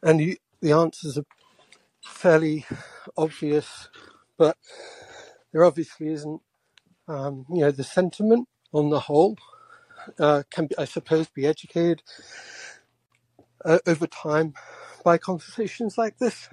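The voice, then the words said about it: Out of breath, wheezing. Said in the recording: “I'm out of breath ... I am wheezing.”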